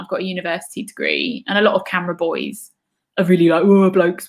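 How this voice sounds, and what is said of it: Southern English accent. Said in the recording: “I've got this, you know, Southern English accent.”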